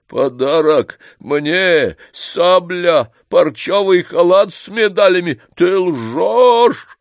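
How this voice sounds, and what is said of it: Feverish, shrill, thundering shout. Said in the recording (Russian): “Голос у него был горячечный, с визгом ... загремел”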